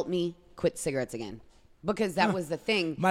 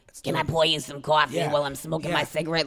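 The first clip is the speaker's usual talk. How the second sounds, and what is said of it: Raspy smoker's character voice. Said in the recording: “I'm raspy as it is... I'm going to be Aunt Flo like... raspy like this”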